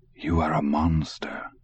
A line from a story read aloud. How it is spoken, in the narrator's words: he said softly